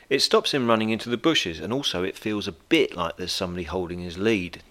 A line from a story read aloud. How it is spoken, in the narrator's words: Natalie One said quietly